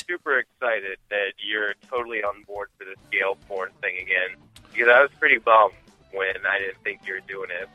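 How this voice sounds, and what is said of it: Weird-sounding sore-throat voice. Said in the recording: “my voice sounds a little weird. I have a sore throat.”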